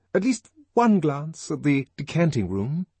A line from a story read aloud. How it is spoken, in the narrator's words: pleaded